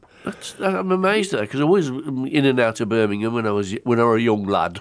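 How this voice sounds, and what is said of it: Slips into a Yorkshire accent. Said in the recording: “I've gone to a Yorkshire accent there”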